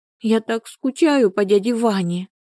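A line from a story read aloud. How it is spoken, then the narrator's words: Sobbing. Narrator (Russian): всхлипнула она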